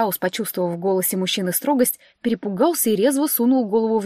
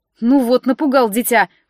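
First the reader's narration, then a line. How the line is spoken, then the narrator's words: Snorted. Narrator (Russian): фыркнула я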